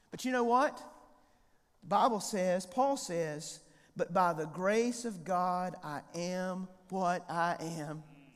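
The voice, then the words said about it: High-pitched North Carolina accent. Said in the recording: “I've got a high-pitched voice. I'm a hillbilly. I've got a North Carolina accent.”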